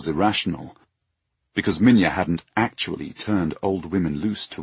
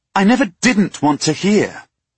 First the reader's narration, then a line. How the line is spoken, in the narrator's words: Sarai snapped